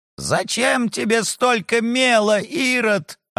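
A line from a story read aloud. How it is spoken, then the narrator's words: Spluttering yell. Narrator (Russian): орал Лаврентий Павлович, брызгая слюной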